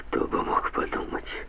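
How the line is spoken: Muttering. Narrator (Russian): пробормотал он

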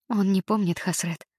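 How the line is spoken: Sigh. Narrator (Russian): Матильда вздохнула

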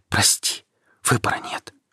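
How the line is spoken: Whisper. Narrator (Russian): прошептала она

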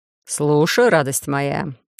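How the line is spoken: Slightly tired reply. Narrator (Russian): Чуть устало отозвался тот

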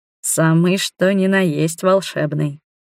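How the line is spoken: Sensual purr. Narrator (Russian): эротично промурлыкал Иоран

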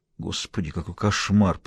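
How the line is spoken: Mumble. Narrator (Russian): пробормотал он

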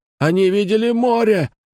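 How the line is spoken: Yelling. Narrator (Russian): заорал он мне

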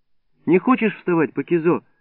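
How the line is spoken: Gentle question, grandmother. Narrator (Russian): ласково спросила бабушка

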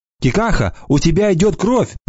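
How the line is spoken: Shouted. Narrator (Russian): закричала Анана

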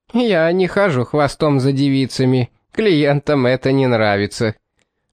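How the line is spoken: Falsetto chuckle. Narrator (Russian): хохотнул фальцетом сутенер

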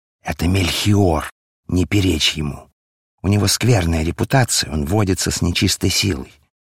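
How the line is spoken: Quiet whisper. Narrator (Russian): Один из друзей тихо зашептал ему на ухо

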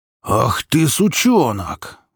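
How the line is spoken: Furious roar. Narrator (Russian): взревел Микола

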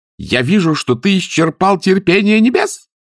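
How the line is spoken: Shrill shriek. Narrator (Russian): взвизгнула сеньора Моретти

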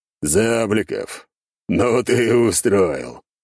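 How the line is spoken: Laughing heartily. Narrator (Russian): хохотал Андрей Дмитриевич

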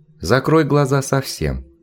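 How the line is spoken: Very calm. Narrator (Russian): сказала Неферт очень спокойно

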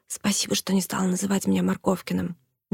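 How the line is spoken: Whisper. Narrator (Russian): прошептал

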